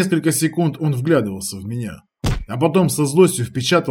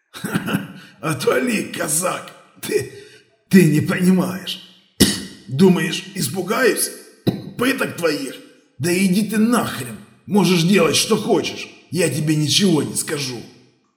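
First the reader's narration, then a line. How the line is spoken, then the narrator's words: Laughing, coughing, hoarse rasp. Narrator (Russian): Я рассмеялся ему в лицо, закашлялся и прохрипел, скалясь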